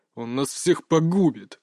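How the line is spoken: Hissing soldier. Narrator (Russian): шипел капитан-солдат

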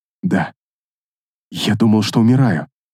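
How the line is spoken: Dark elf whispering. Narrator (Russian): прошептал темный эльф

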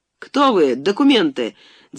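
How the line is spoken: Shouting, feigned agitation. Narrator (Russian): крикнул стараясь выразить в голосе волнение

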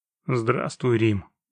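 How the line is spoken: Dry greeting. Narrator (Russian): сухо поздоровался ведьмак

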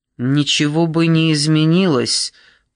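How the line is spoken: Through gritted teeth. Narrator (Russian): процедил Зейн

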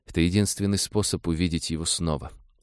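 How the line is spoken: Calm. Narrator (Russian): спокойно сказала девушка

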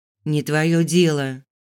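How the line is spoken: Deliberately rude. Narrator (Russian): ответила намеренно грубо

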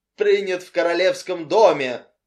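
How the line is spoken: Delighted exclamation. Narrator (Russian): восторженно воскликнула миссис Фэддиман Фиш

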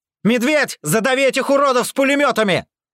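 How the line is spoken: Yelled. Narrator (Russian): Заорал

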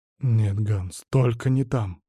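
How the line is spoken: Whisper. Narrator (Russian): прошептал Бергер

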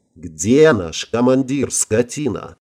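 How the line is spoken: Growling. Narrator (Russian): зарычала Ирина

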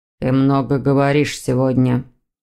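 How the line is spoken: Dry. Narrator (Russian): сухо отозвался мужчина

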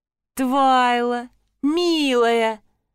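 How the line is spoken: Joyful cooing. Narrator (Russian): радостно проворковал Маракс

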